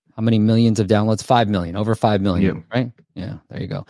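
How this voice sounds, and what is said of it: New York accent. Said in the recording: “I love your New York accent.”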